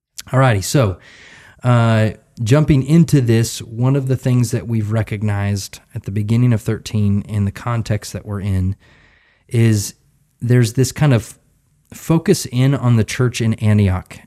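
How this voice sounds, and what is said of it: Slightly raspy voice. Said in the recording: “this week, I'm a little bit raspy because between the last episode and this one, I got the flu. So I've been coughing and wheezing”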